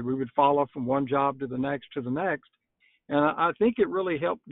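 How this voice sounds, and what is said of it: Non-Northeastern American accent. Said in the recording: “I can tell that you're not from the Northeast with that wonderful accent of yours”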